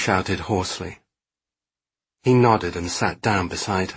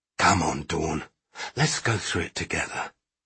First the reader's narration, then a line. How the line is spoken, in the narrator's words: he said gently